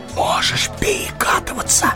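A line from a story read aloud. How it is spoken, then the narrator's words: Whispered. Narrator (Russian): шепнул он ему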